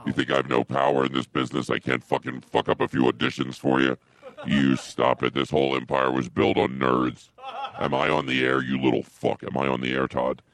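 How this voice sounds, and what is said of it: Angry shouting voice. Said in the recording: “He sounds angry. ... I am angry.”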